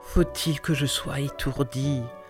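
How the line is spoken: Murmur. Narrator (French): murmura Bouvancourt

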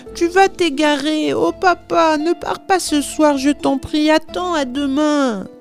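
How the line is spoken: Pleading. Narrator (French): suppliait Marie

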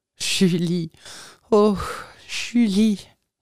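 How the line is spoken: Sighing exclamation. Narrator (French): m'écriai-je en soupirant

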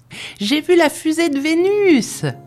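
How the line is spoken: Yelling. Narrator (French): hurla Paolo

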